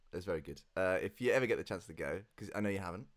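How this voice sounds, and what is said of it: Congested, nasal voice from cold. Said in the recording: “I've got a bit of a cold. ... I noticed that nose was slightly blocked. ... Yeah, a bit nasal.”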